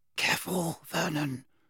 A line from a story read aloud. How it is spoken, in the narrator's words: breathed Aunt Petunia